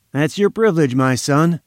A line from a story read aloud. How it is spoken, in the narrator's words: said Malone